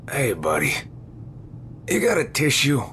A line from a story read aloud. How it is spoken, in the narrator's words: He groaned